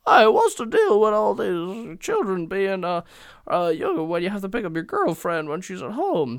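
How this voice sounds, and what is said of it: Bad Jerry Seinfeld impression. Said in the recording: “That was my terrible Jerry Seinfeld impression.”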